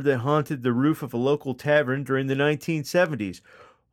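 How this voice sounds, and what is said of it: Imitates another person's accent. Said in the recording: “you went deeply into Cousin Kenny Pooh's accent again”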